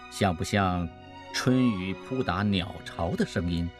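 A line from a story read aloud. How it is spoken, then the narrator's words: Soft, reverent question. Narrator (Chinese): 陈光远的神态也变得极为专注，如同敬神，轻声问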